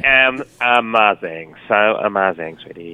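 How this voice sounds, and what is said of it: Put-on American accent. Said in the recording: “now that's your American accent.”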